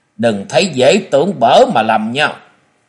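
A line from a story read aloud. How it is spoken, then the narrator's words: Stern voice. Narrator (Vietnamese): Châu Thanh nghiêm giọng nói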